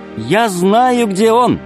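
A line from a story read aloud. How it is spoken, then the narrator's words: Shout. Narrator (Russian): крикнула Алиса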